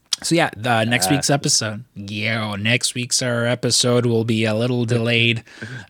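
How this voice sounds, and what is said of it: Imitates another person's voice. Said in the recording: “I was going to try to do a JFK impersonation, but it would have been more Mayor Quimby than JFK. ... That sounded more Gerald Ford than anything.”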